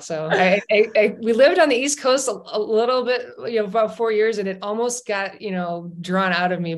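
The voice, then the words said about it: Chicago accent. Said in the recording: “these accents ... I'm going to go deep for my most Chicago-y accent”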